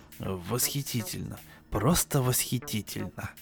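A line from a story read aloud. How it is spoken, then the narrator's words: Tearful, snuffly mumble. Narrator (Russian): Промямлил Пэт Рейли, у которого текло из глаз и из носу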